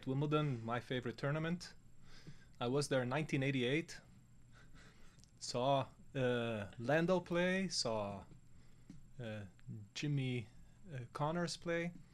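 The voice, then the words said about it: Non-native English accent. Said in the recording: “as you can tell from the accent, ... not native to the uh, America area.”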